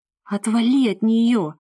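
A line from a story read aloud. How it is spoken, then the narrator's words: Hoarse wheeze. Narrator (Russian): просипела Кэти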